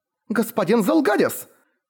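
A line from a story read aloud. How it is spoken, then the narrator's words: Disbelieving shout. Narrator (Russian): закричала она неверяще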